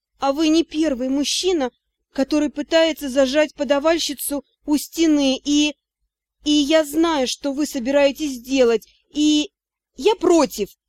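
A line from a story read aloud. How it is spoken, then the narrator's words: Frightened mumble after swallowing. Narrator (Russian): Сглотнув, я испуганно пробормотала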